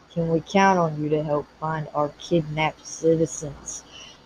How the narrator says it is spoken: Ramirez continued in his patent deep voice

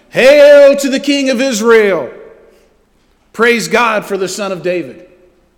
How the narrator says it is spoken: all the people all around were shouting

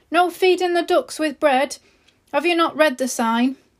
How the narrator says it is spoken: The shop owner shouted

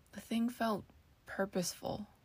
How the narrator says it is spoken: she whispered

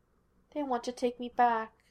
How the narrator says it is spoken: she said sadly

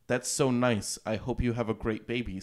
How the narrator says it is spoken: said Amy

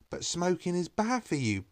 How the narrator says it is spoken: Betty exclaimed

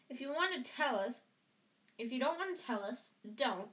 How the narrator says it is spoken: snapped Ron

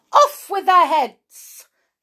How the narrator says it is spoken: the Queen shouted

